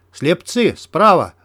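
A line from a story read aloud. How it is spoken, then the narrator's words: Shout. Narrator (Russian): закричал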